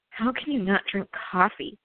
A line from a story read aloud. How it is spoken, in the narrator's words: I mumbled